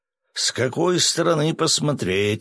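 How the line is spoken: Snorting. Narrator (Russian): хмыкнул Свят

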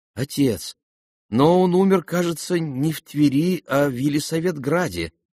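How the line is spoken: Timid remark. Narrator (Russian): робко заметил

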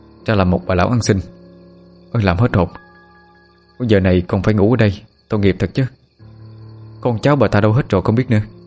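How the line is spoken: Exhaling, muttering. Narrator (Vietnamese): Người thanh niên thở hắt ra một hơi, miệng lẩm bẩm

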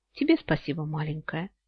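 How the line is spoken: Quiet reply. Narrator (Russian): Тихо отозвался Йен

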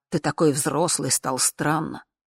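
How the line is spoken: Angry, cutting. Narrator (Russian): зло сверкнула глазами, как нож, сказала

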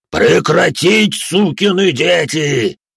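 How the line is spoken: Roaring, megaphone-loud. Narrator (Russian): взревел спектр не хуже патрульного матюгальника

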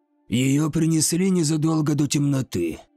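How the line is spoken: Hoarse wheeze. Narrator (Russian): прохрипел смотритель

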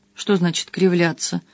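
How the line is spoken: Frightened question. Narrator (Russian): спросил испуганно

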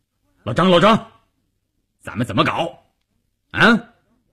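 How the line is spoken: Loud. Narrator (Chinese): 关山林 大声地说

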